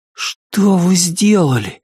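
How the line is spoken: Breathless exhale. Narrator (Russian): выдохнул он

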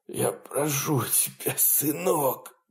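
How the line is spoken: Father wheezing hoarsely. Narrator (Russian): продолжал хрипеть папа

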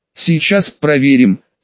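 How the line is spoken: Hoarse female reply. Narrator (Russian): хрипло ответила женщина

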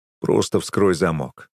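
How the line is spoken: Calm advice. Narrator (Russian): спокойно советую я

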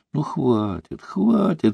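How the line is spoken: Sleepy. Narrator (Russian): сказала она сонно

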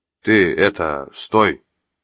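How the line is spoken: Uncertain traffic cop. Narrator (Russian): неуверенно начал один из гаишников

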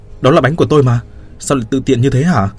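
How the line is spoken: Hasty shout. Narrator (Vietnamese): Tôi vội hét lên

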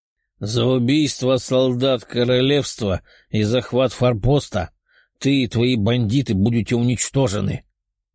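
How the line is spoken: Menacing declaration. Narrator (Russian): грозно заявил воин

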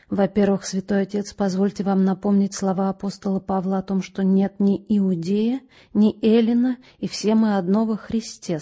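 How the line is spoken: Quiet. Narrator (Russian): сказал он тихо

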